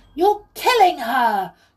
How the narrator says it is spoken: cried Molly

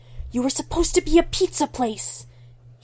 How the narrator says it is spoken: he hisses at it, betrayed

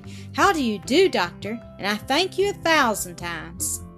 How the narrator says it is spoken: In the full joy of her heart, she exclaimed

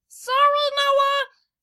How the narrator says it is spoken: screamed Kinzo

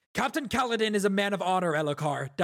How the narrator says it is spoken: Dalinar shouted

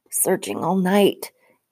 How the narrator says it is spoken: gasped

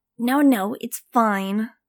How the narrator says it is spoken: Tootle snapped

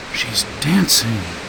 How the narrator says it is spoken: Ellie whispered

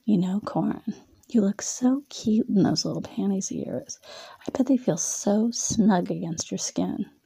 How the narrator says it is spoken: Jenna leaned in close to him and whispered in his ear

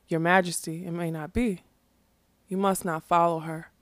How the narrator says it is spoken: But Smendrick, standing beside him, said quietly

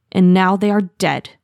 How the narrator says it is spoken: Appledusk growled

